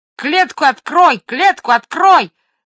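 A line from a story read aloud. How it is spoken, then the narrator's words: Sudden parrot squawk. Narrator (Russian): заорал вдруг попугай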